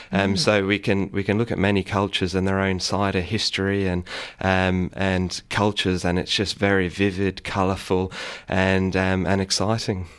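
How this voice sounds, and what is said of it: Slight English accent. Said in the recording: “you have a slight accent ... originally from England”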